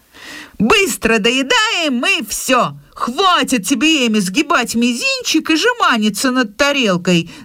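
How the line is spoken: Hurried shout, mouth full. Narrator (Russian): закричала Джо в спешке, заглатывая чай

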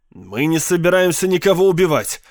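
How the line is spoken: Irritated. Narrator (Russian): раздраженно сказал пиарщик

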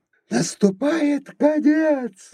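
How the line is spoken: Shouting. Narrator (Russian): закричал он

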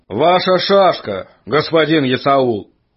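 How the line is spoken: Loud. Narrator (Russian): громко сказал он

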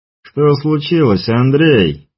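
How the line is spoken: Mocking question. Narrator (Russian): издевательским тоном спросил лектор

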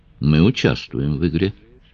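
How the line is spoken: Calm statement. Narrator (Russian): спокойно заявил Бодлей

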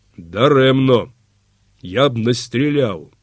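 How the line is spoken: Calm, seemingly indifferent. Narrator (Ukrainian): спокійно і ніби байдуже сказав запорожець

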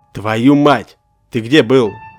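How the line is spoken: Father yelling angrily. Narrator (Russian): Орал на меня мой отец

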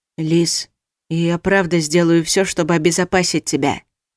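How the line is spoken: Quiet. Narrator (Russian): тихо сказал он

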